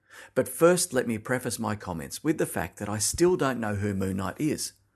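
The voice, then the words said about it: Australian accent. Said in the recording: “I live in Melbourne, which is in Australia, if you haven't picked up on the accent yet.”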